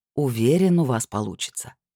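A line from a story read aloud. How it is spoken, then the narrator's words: Soft reassurance. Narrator (Russian): мягко подтвердил он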